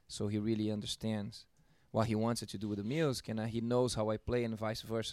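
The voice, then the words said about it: Brazilian accent. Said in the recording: “a drummer with an accent, dude... I'm originally from Brazil, São Paulo, Brazil.”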